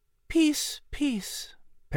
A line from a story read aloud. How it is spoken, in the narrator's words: Patrick said in a hushed tone